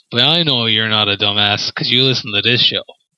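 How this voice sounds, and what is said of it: Foreign accent. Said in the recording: “this foreign accent of mine”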